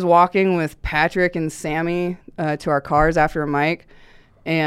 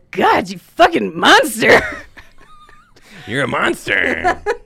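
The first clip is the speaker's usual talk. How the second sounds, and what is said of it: Imitates another person's voice. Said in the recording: “good Sammy impression”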